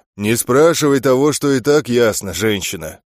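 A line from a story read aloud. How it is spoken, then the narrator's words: Deep bass voice. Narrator (Russian): пробасил Громодар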